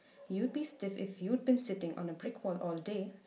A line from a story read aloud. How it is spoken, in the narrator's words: said Professor McGonagall